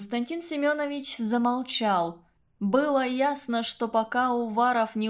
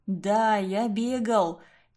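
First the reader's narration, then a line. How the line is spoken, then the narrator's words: Heavy sigh, then speaking. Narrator (Russian): тяжело вздохнув, проговорил Уваров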